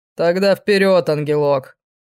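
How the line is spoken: Snorting. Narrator (Russian): хмыкнул демон

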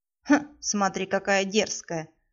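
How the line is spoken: Snorting vampire. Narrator (Russian): хмыкнул вампир

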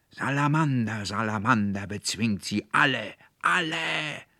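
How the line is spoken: Furious roar. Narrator (German): brüllte der Konrektor Paulmann in höchster Wut

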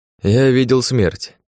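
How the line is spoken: Snort. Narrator (Russian): хмыкнул Алекс

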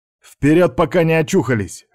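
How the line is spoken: Barked. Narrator (Russian): рявкнул Степан

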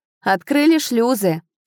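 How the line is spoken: Shouted reply. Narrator (Russian): прокричал в ответ Рейн

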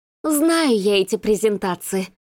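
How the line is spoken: Irritated exhale. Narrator (Russian): раздраженно выдохнула Маргарита

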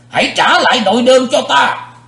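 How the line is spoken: Roaring shout. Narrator (Vietnamese): Sự diện quái ma dục rống lên một tiếng, quát

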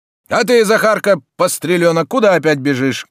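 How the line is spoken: Shouting. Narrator (Russian): кричал

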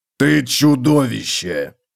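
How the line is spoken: Growled. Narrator (Russian): прорычал Готрек

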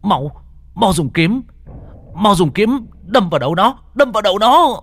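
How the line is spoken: Frantic shout. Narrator (Vietnamese): Lục Hải hét lên

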